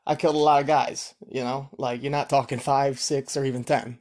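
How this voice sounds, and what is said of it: Rough impression of mobster Sonny Francis. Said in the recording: “I don't know how Sonny Francis talks. That was probably a horrible impersonation”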